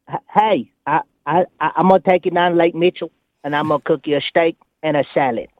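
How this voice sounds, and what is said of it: Imitated voice with Brooklyn accent. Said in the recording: “I have a Gary impression... That's pretty good... there's a lot of Brooklyn you had to get out of there”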